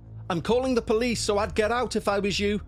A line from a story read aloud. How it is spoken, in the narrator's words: I shouted, shaking like a leaf